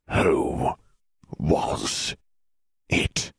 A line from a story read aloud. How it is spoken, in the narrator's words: Sirius ground out through his teeth, forgetting himself